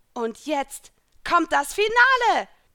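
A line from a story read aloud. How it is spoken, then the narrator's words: Shout. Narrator (German): schrie ich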